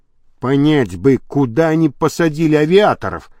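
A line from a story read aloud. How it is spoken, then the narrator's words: Whisper. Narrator (Russian): прошептал Енисеев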